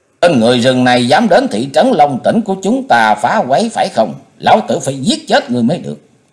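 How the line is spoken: Resentful shouted question. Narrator (Vietnamese): Một người đứng xem đó hậm hực quát hỏi Sắc Quái rằng

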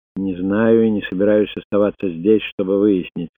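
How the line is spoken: Gloomy. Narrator (Russian): сказал он мрачно

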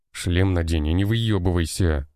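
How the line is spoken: Commander barking. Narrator (Russian): рыкнул на него командир отряда

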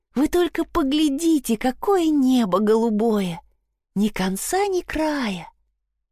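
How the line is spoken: Blissful sigh. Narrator (Russian): Блаженно вздохнув, Мелани

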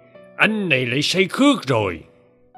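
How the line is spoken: Old man's shout. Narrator (Vietnamese): Cụ Bá quát

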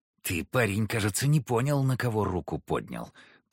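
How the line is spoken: Thug growling. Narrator (Russian): прорычал хмырь

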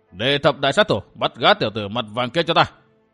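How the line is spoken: Old man, angry loud shout. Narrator (Vietnamese): Lão hộ pháp nổi giận, quát lớn

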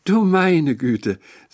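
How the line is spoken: Affected little sigh. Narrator (German): sagte kopfschüttelnd mit einem gezierten kleinen Seufzer

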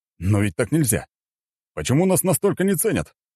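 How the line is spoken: Exclamation. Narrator (Russian): воскликнул Александр

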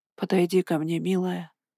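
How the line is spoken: Barely audible whisper. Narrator (Russian): еле слышно прошептала ведьма

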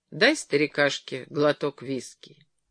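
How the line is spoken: Completely calm. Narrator (Russian): совершенно спокойно сказал Джерри

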